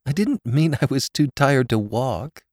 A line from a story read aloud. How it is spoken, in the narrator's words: she said, laughing tremulously